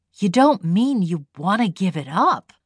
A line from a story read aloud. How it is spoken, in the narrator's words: she said in an awed tone